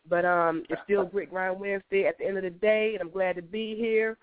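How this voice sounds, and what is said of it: Stuffy, hoarse voice. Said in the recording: “I know I don't sound like the normal ... You know, I'm a little stuffy right now, you know, a little hoarse. ... I sound better than I did earlier.”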